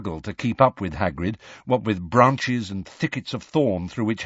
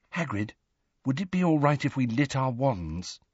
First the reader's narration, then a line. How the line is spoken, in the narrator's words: said quietly